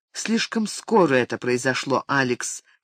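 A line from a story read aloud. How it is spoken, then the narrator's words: Quiet. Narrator (Russian): тихо ответила она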